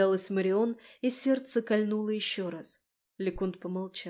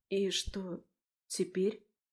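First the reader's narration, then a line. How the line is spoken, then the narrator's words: Quiet question. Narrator (Russian): тихо спросила Марион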